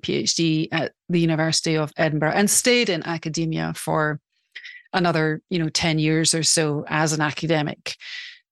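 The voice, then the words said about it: Scottish accent. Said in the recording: “that's not what you hear in this accent. Of course, you hear Scotland.”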